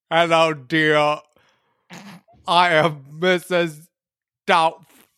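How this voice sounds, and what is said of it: Celebrity impression with bad British accent. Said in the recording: “I was trying to be like Arnold Schwarzenegger trying to do a bad British accent”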